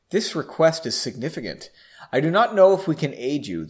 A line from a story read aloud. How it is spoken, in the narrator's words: the bird calmly stated